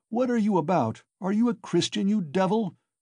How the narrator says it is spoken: shouted an old man in the crowd

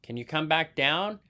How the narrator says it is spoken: asked Mr

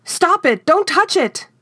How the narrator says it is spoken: screamed

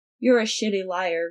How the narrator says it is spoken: Remus said mildly

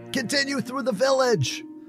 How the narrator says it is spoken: from behind yelled

